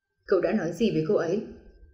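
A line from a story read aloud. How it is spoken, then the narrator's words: Cold gloomy voice. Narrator (Vietnamese): giọng u lãnh nói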